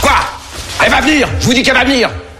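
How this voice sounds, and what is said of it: Shouting. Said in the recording (French): “Pourquoi tu cries?”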